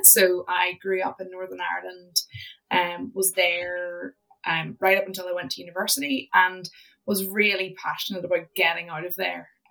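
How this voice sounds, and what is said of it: Northern Irish accent. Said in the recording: “I'm Northern Irish, as you will be able to tell from the accent.”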